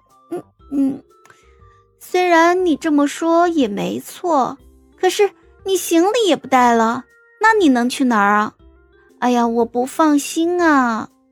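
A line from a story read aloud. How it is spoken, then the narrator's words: Choked, murmuring. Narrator (Chinese): 于梦瑶哽了哽，喃喃道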